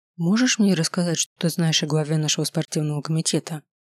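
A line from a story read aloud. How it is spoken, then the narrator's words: Whispered question. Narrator (Russian): шепотом спросил я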